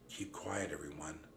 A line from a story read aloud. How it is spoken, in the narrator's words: I whispered